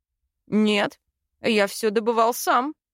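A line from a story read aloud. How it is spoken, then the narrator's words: Snorting. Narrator (Russian): фыркнул он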